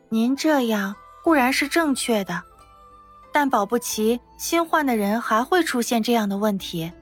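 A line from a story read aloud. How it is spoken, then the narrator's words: Gentle, with a smile. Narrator (Chinese): 夏妙龄笑了一下，柔声说道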